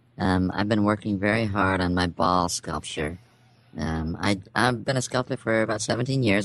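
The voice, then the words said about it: Very strange put-on voice. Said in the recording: “weird voice ... That is a very strange voice”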